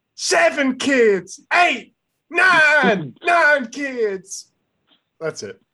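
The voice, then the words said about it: Phil Rivers impression. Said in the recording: “my Phil Rivers impression”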